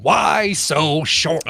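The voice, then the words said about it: Joker-style villain voice. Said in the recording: “his Joker impersonation”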